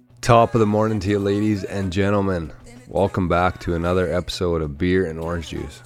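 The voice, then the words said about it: Voice sounds a little off. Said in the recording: “my voice is a little bit off today. That was the first time I talked.”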